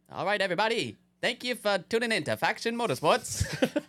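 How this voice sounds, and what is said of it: Old-timey transatlantic accent. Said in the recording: “Put on your transatlantic accent. ... It's like that old-timey accent.”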